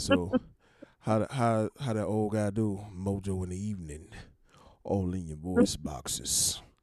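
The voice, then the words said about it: Deep baritone radio voice. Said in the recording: “radio voice ... my deep baritone Barry White imitation”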